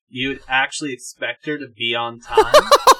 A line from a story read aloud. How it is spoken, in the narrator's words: She laughed some more